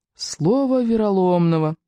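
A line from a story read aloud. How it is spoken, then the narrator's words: Moaning. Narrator (Russian): простонал Рыбьенок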